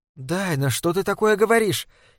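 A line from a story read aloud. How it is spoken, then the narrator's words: Frightened question. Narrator (Russian): испуганно спросила Лорел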